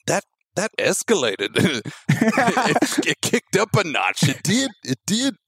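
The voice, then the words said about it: Ron Burgundy impression. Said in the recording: “That's a good impression.”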